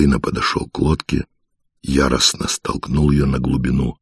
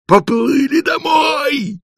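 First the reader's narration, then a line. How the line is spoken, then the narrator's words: Very loud yell. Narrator (Russian): заорал он так, что и вдалеке люди оглянулись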